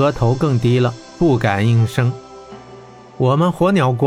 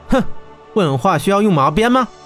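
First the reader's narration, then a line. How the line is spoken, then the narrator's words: Stern scoffing voice. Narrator (Chinese): 温莎队长哼了一声，厉声道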